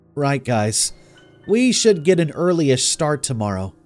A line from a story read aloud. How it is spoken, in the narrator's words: I slurred